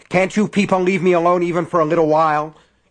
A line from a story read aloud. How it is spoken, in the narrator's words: he shouted angrily